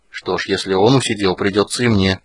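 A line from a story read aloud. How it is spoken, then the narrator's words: Muttering. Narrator (Russian): пробормотал Карамон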